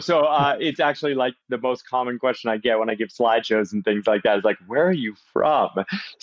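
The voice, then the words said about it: Massachusetts accent with slight British tinge. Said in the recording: “your accent. So you're not American born ... mostly Massachusetts with a tiny bit of Brit mixed in ... sounds like the Brit cemented in there pretty good. Yeah. So I can hear it.”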